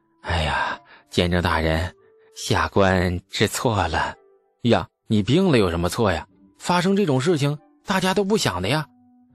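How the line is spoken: Sighing, low voice. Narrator (Chinese): 叹了一口气，许敬宗低声地说

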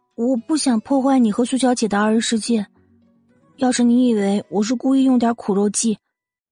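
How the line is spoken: Sighing, reluctant. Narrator (Chinese): 季如锦叹了口气，还是说了出来

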